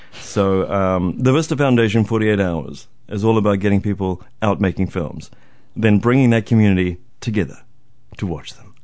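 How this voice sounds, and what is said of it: Put-on radio announcer voice. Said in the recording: “radio voice ... When I have a giant mic in front of my face, I just feel like doing that voice”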